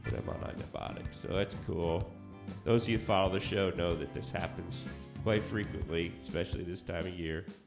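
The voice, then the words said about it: Sick, strained voice. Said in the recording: “apologize for my voice. That's another attack of the strep.”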